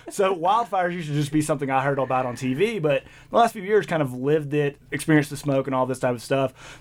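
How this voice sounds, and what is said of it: Southern American accent. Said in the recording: “from the Southern accent, like I'm not originally from the West”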